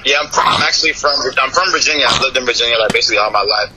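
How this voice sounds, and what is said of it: Northeastern US accent. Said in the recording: “You don't sound like you're from Florida, though. You're from the Northeast? You got, like, a Northeast accent to you.”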